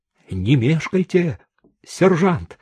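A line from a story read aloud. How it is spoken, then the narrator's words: Added agitatedly. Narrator (Russian): взволнованно прибавил Франц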